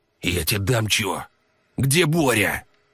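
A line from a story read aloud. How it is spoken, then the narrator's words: Furtive hiss. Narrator (Russian): Прошипел, воровато озираясь по сторонам, Валерий Васильевич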